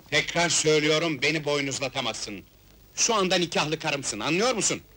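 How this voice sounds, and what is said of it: Shouting angrily. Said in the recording (Turkish): “Bağırma, sağır değilim.”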